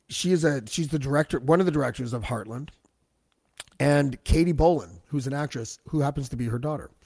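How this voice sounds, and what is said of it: Sick, husky lowered voice. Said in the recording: “I'm under the weather. You can probably tell by my voice. It's not usually this sexy.”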